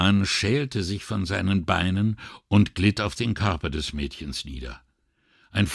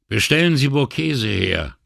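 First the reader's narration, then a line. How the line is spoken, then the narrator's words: Calm, normal call. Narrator (German): rief Brunetti dem Bootsführer zu, dass seine Stimme ganz normal klang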